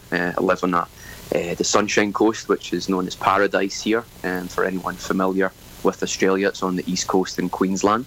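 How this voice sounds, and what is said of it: Scottish accent. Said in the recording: “You can probably tell that my accent doesn't originate from there. I grew up in Scotland”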